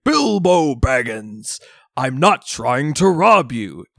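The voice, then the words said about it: Booming Gandalf impression. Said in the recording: “Ian McKellen like adopts his booming voice ... my Gandalf impression”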